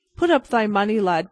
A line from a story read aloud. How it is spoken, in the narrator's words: cried the other quickly